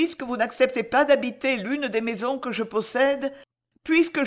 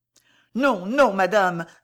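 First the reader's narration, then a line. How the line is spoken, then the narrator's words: Woman exclaiming. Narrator (French): s'écria la dame en noir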